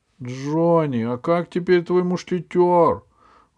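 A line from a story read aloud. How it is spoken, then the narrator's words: Loud question from behind. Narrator (Russian): громко спросили с задней парты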